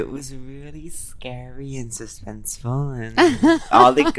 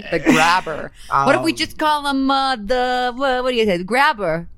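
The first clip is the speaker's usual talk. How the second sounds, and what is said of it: Imitates another person's voice. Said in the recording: “That's my new impression that I love that I'm getting on SNL for”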